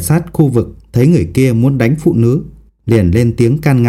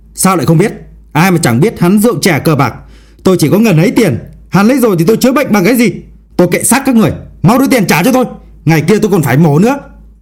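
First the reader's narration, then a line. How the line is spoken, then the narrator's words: Man shouting loudly. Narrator (Vietnamese): Người đàn ông quát lớn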